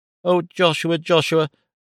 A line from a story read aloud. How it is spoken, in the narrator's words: she cried entreatingly